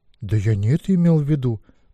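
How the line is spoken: Embarrassed mumble. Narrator (Russian): пробормотал сконфуженный Гвидион

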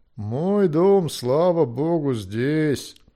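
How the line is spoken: Grumbling. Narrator (Russian): пробурчал Финтан

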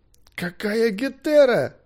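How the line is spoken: Moaned. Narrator (Russian): простонал Арбилий

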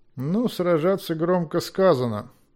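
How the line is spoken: Calm remark. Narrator (Russian): спокойно заметил Змейк

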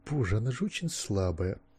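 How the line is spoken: Muttered with a sigh. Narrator (Russian): пробормотал со вздохом

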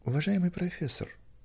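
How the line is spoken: Said softly. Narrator (Russian): тихонько сказал

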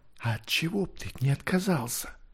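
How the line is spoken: Whispered question. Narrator (Russian): Все так же шепотом спросила Двинвин

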